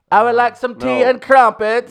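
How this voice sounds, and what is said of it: Put-on British accent. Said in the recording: “Was it a British accent? ... You've never done a British accent. ... Effectively. ... He just went whole hog into that accent”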